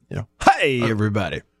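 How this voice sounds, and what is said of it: Goofy overdone radio announcer voice. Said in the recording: “a little radio voice ... my goober radio overcook it voice when I'm just goofing off on trying to be funny”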